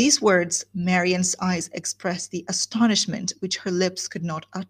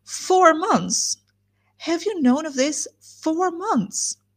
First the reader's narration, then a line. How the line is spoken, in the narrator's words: After a pause of wonder, she exclaimed